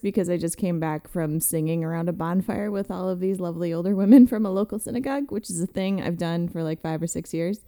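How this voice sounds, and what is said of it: Slightly hoarse voice. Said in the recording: “My throat is a little hoarse”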